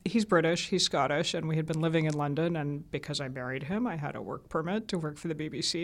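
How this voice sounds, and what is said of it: American accent. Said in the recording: “sounding the way I do with an American accent ... my Southern accent was trained right out of me at the BBC”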